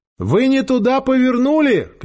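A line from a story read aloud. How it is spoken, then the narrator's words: Shouting. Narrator (Russian): крикнула Ольга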